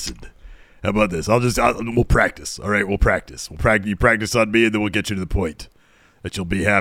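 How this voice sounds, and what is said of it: Usual voice. Nothing is said of it.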